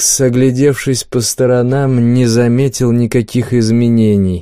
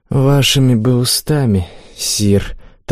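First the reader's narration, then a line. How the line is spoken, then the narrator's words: Warrior's mournful sigh. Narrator (Russian): тоскливо вздохнул воин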